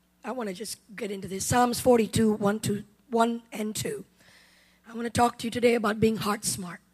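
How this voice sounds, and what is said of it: Hoarse, worn-out voice. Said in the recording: “My voice is shot because of ladies' conference.”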